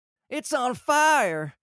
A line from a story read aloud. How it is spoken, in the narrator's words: yelling